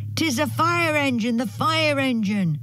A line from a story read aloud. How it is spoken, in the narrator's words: shouted two or three voices